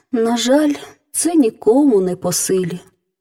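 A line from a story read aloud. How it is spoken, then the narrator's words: Sighing. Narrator (Ukrainian): зітхнула королівна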